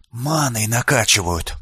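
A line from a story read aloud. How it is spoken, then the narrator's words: Whisper. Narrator (Russian): прошептал Лулио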